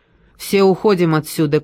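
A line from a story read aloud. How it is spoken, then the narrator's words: Shout. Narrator (Russian): крикнула я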